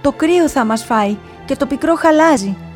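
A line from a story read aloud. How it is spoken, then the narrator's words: Distant passionate shouting. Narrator (Greek): από μακριά τον άκουγε με πάθος να φωνάζει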